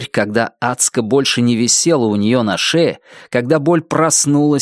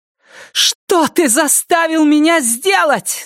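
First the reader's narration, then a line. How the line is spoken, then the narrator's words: Screamed. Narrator (Russian): закричала она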